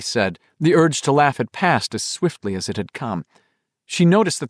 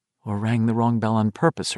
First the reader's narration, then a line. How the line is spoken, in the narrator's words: her mind whispered